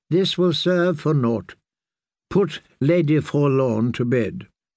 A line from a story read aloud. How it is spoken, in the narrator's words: chided Redfort in a softer tone